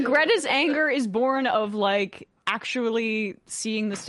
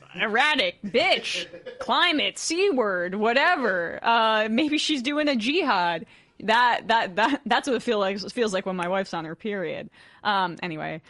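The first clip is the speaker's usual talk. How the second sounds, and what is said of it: Imitates another person's voice. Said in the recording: “That's my imitation.”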